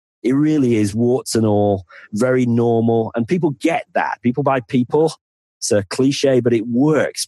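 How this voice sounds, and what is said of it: Northern English accent. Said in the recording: “my accent generally is probably considered to be a bit of a stupid accent ... my accent is you're normally sort of the thick person from the north”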